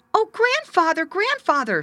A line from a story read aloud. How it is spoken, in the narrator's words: screamed the little boy